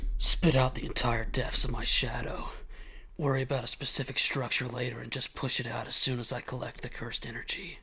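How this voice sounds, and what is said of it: Deep, shadowy character voice. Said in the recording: “do a better voice ... It's going to be deep and... going to have some shadow to it”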